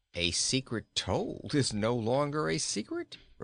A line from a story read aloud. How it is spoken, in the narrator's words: replied Inga with a laugh